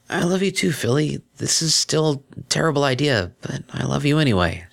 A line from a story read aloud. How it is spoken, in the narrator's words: she said hoarsely